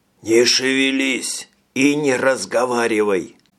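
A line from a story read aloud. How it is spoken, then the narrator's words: Hoarse rasp. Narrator (Russian): прохрипел Ферлин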